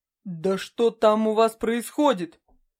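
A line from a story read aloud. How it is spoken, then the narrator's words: Roaring like hungry pack leader. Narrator (Russian): взревел Морин, подобно вожаку стаи, которого нерадивые соплеменники оставили голодным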